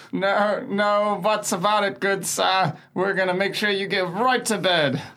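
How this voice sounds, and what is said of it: Strained character voice like Salad Fingers. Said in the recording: “You sound a little bit like Salad Fingers ... my voice isn't all here, so I'm definitely like starting to dip into the Warren voice ... dipping slightly into Warren's accent, you sound like Salad Fingers.”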